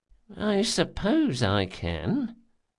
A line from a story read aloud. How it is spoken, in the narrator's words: muttered Beaumondaine, his puzzled reluctance turning to interest in a professional challenge as he spoke